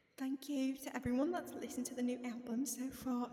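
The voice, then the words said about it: Bad put-on British accent. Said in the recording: “should I read it in an accent? ... This is not Louis' accent. This is just what I, this is my British accent. ... That's so bad.”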